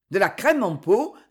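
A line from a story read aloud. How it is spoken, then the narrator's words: Exclaimed. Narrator (French): s'écria Lanterne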